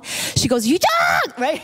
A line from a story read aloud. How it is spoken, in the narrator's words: She screams